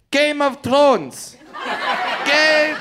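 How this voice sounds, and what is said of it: Shouted line in French accent. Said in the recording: “yells out in the French accent”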